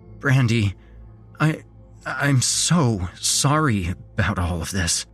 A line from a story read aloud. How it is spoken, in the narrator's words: I stuttered